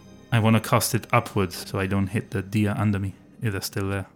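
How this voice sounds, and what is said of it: Usual voice. Nothing is said of it.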